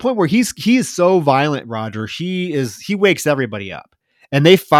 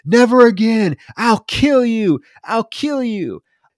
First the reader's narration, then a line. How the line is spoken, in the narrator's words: screaming